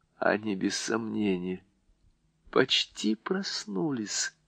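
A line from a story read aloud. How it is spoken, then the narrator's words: Plain. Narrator (Russian): сказала Люси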